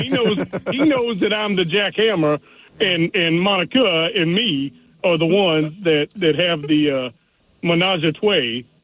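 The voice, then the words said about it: Imitates another person's voice. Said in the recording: “Now ... has completed his impression. ... That's exactly it. Menage a trois, he says. ... That's how ... would say it.”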